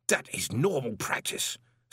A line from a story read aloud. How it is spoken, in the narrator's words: snapped Gilt